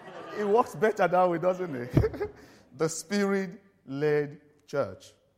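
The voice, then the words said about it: Speaks English with a foreign accent. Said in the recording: “Can you understand my accent?... I can't change it now... I'll try and speak slowly so that you can follow me”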